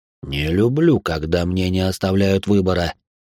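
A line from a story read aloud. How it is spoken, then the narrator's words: Grumbled. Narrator (Russian): проворчал Верховный Демон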